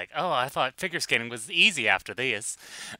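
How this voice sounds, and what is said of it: Exaggerated Southern twang, fey. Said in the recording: “I gave him a Southern twang ... Just gave him, like, the most fey accent imaginable”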